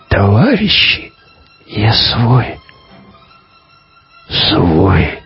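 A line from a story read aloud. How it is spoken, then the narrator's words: Hoarse rasp. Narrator (Russian): человек прохрипел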